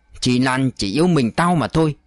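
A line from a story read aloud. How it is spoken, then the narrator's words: Harsh, gritted voice. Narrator (Vietnamese): Dậu gằn giọng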